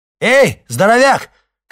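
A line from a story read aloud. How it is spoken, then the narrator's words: Shouting. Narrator (Russian): крикнул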